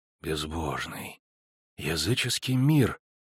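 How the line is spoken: Muttered. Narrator (Russian): пробормотал Генрих фон Швельборн

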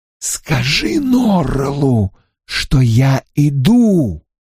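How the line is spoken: Hissed. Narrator (Russian): прошипел Стрэндж

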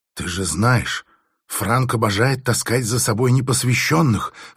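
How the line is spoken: Ingratiating female whisper. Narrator (Russian): вкрадчивым шепотом говорила женщина

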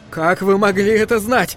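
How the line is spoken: Roaring. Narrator (Russian): проревел он

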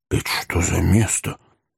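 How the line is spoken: Whisper. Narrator (Russian): прошептал пятнистый джентльмен

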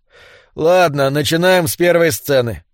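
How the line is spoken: Sighing announcement. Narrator (Russian): вздохнув, объявил Кэллоуэй

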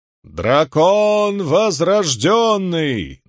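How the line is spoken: Chanted proclamation, grey-haired man. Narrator (Russian): нараспев провозгласил седовласый мужчина

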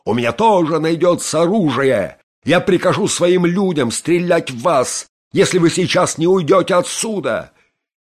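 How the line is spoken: Shouting. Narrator (Russian): он кричал

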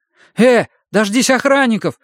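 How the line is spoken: Frightened young man. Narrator (Russian): испуганно проговорил парень

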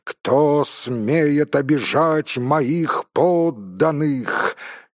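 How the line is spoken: Thundering exclamation. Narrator (Russian): он воскликнул громовым голосом

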